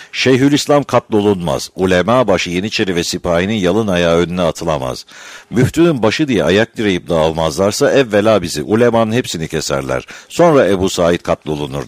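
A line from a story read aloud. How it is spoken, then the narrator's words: Plain. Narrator (Turkish): dedi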